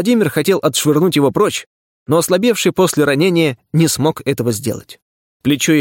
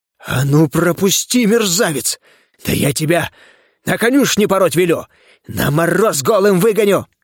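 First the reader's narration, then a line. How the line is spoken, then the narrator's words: Hoarse rasping. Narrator (Russian): хрипел Левашов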